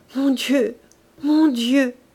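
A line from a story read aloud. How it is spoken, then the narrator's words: Sobbing stammer. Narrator (French): bégaya-t-elle dans un sanglot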